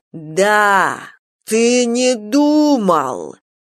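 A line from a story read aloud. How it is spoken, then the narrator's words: Bitter drawl. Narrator (Russian): ожесточенно протянул Елли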